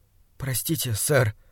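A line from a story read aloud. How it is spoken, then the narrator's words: Mumbled. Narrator (Russian): пробормотал я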